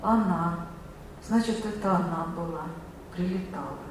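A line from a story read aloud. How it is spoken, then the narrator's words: Quiet murmuring. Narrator (Russian): тихо приговаривал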